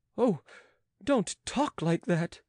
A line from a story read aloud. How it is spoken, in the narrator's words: cried Petou, sobbing